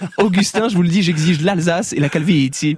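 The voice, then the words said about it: Put-on Italian accent. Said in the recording (French): “si je commence à faire l'accent italien”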